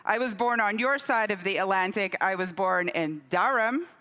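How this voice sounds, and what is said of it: Unusual mixed transatlantic accent. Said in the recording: “the accent that you can hear right now, which is a little strange”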